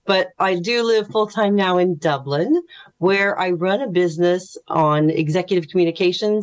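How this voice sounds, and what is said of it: American accent. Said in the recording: “from the accent that you're hearing, I'm an American”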